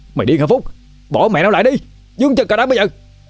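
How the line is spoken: Shouted. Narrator (Vietnamese): quát lên

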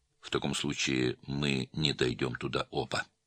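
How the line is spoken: Calm officer. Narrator (Russian): спокойно сказал подполковник

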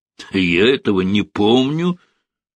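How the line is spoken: Angry smirk. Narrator (Russian): министр зло усмехнулся

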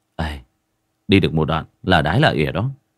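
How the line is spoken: Muttering. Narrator (Vietnamese): Nhiếp Tuấn Kiệt cũng không biết, giọng cứ lẩm bẩm

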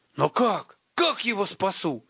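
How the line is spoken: Almost shouting. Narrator (Russian): едва не закричал Тимур

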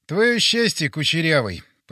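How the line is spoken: Muttered. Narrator (Russian): пробурчал я

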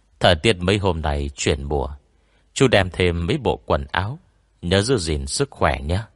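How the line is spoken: Soft voice. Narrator (Vietnamese): Anh Mã khẽ bảo

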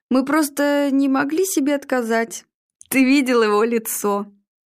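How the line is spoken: Laughing. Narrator (Russian): Игорь не выдержал и рассмеялся

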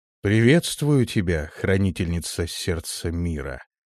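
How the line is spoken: Solemn, echoing voice. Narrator (Russian): Его голос прозвучал торжественно, словно эхо из далеких веков

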